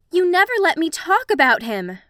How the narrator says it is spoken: Ray cried

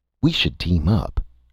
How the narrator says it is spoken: Eric said excitedly

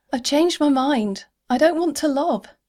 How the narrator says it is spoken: shouted straight into her suit mic

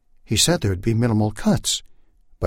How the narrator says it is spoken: Buddy said quickly

